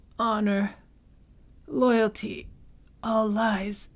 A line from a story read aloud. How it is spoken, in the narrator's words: Saito's voice came rough as the rasp of a dying crow